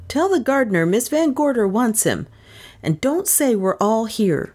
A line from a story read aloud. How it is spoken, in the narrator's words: the young lawyer commanded the butler sharply